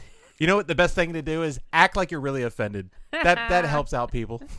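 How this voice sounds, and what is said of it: Usual voice. Nothing is said of it.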